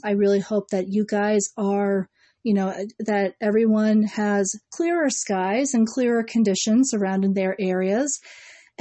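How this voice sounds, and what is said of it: Strained, worn-out voice. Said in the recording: “Just in case you couldn't hear it from my voice, I've been trying to keep my voice intact and keeping it together”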